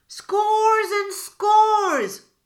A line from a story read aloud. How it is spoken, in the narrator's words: cried Br'er Rabbit